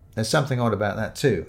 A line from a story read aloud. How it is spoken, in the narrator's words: said